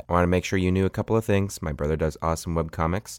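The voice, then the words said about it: Slightly weird, strained voice. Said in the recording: “if my voice sounds a little bit weird, I was just doing a lot of yelling in a warehouse”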